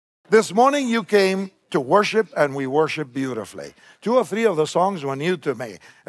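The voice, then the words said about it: Argentine Spanish accent in English. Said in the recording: “I was born in Argentina, just so you can get over what the accent's about.”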